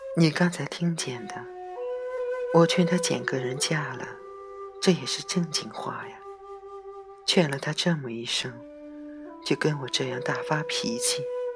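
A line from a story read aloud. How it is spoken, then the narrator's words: Mother sighing. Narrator (Chinese): 母亲便又在黑暗中叹了口气，和曼桢说道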